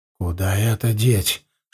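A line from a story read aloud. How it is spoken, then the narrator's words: Whispered question. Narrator (Russian): шепотом спросил я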